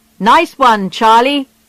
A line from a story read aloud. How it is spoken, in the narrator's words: they shouted when they heard the news